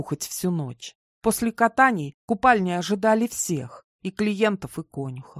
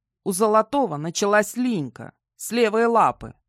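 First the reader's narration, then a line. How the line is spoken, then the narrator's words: Matter-of-fact. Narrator (Russian): буднично сообщил Ингвар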